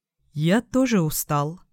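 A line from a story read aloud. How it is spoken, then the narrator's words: Quiet. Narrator (Russian): сказал тихо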